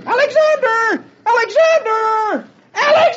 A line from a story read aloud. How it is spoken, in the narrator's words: Dagwood screaming at the top of his voice